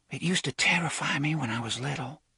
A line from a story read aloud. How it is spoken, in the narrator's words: Susan was whispering now, mindful of the house behind the wall